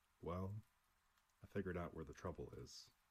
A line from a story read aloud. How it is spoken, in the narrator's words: McIntyre said gloomily, with the air of a man who knows just how he blew up the Earth, after it was too late